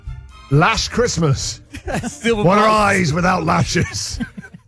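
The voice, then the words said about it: Put-on Scottish accent. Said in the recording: “Scottish accent”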